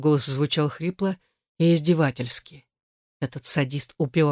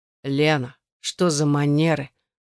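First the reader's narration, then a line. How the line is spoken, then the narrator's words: Spoken through gritted teeth. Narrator (Russian): процедила эта мразь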